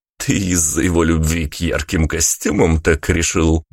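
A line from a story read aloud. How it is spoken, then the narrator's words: Cheerful chuckle. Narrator (Russian): бодро хохотнул Тони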